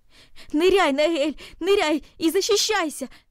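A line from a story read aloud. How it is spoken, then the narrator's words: Shouted. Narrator (Russian): закричал он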